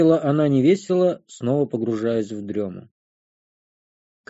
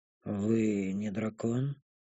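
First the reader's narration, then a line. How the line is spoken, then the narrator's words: Sleepy mumble. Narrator (Russian): пробормотала она сонно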